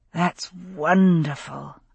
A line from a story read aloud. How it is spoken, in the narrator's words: said, groaning with ecstasy